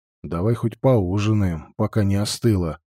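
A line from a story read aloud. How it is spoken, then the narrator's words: Grumbled mutter. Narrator (Russian): буркнул он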